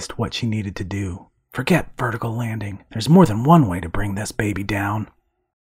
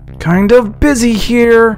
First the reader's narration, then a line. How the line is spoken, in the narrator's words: she shouted